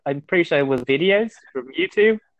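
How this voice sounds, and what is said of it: British English accent. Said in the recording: “with that British accent ... you sound too British”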